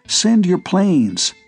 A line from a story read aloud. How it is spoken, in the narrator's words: he begged